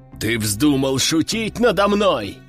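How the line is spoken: Growl. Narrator (Russian): зарычал проверяющий

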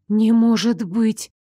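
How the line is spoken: Shocked breathless. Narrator (Russian): потрясенно выдохнула я

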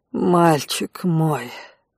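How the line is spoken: Husky, seductive voice. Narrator (Russian): произнес Конт, подпустив в голос эротичной хрипотцы

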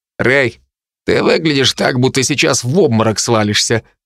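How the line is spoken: Snorting. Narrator (Russian): хмыкнул Дарт

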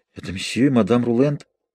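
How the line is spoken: Muttering. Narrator (Russian): Я пробормотала

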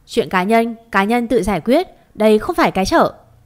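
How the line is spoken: Shouting. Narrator (Vietnamese): Anh ta hét lên

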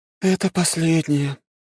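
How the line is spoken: Sad. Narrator (Russian): печально сообщила Дриада

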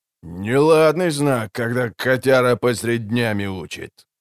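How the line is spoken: Low rumble, embarrassed. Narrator (Russian): прогудел Бортник, странно смутившись

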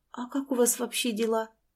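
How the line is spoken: Barely audible question. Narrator (Russian): еле слышно спросила она

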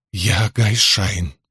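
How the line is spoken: Muffled hoarse woman. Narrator (Russian): прохрипела женщина, уткнувшись носом в ковры

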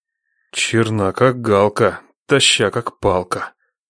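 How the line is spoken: Blissful undertone. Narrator (Russian): вполголоса проговорил Нечай, блаженно

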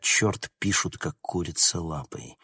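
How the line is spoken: Muttering. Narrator (Russian): Констебль бормоча

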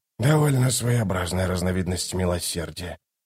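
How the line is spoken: Nauseated mumble. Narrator (Russian): пробормотал Ток, сдерживая рвотные позывы

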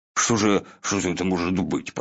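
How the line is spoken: Muttering. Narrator (Russian): пробормотал Пух

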